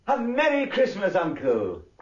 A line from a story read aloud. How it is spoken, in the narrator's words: a cheerful voice, the voice of Scrooge's nephew, cried